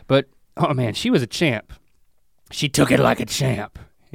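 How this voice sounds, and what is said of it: Imitates another person's voice. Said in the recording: “do an Oprah impression.”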